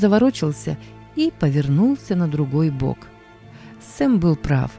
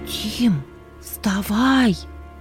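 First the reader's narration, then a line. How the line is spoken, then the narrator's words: Loud whisper, girl. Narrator (Russian): Громким шепотом будила брата сестра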